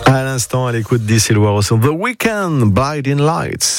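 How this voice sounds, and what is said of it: English accent on English names. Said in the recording (French): “vous avez un superbe accent anglais”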